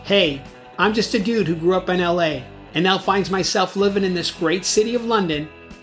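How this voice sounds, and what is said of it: California American accent. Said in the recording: “I've managed to stay true to my California roots, though, on this side of the pond, and keep my accent”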